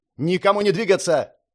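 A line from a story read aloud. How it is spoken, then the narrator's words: Sharp shout. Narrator (Russian): резко крикнул Ночь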